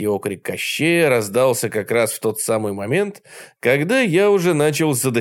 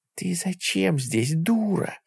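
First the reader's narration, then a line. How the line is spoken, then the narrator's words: Hissed through teeth. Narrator (Russian): сквозь зубы прошипел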